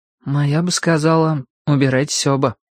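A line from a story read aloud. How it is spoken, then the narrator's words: Sad. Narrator (Russian): грустно сказал Шурик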